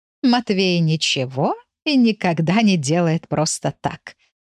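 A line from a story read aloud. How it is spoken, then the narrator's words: Laughing. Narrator (Russian): рассмеялась Матильда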